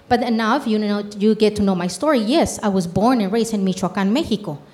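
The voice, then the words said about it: Spanish-accented English. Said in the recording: “I know people hear my accent”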